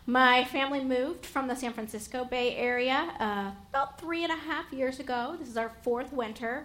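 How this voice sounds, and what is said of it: Slight Appalachian Southern accent. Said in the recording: “I'm originally from Appalachia. I grew up in the Blue Ridge Mountains of Virginia. So when you hear a little bit of an accent or a y'all, that's genuine.”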